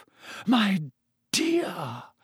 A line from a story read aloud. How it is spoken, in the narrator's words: Professor Trelawney breathed